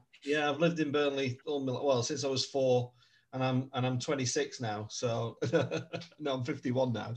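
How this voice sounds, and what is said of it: Lancashire accent, partly southern. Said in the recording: “Lancashire... accent... I'm a Burnley lad, but me dad was a southerner, so I kind of drift in and out from time to time.”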